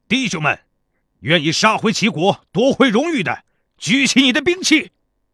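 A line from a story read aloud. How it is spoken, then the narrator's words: Loud middle-aged soldier. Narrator (Chinese): 中年士兵 大声说道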